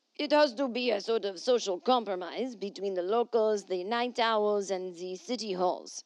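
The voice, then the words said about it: Put-on accent for a quote. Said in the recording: “oh, wait, I didn't do my accent.”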